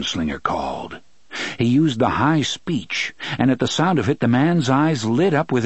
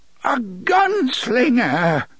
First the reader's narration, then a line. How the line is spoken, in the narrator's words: the man cried